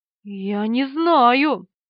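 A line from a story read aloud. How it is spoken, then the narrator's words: Trembling voice. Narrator (Russian): дрожащим голосом ответила Полина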